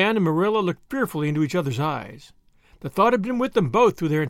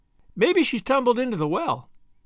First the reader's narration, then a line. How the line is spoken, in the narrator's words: suggested Davy cheerfully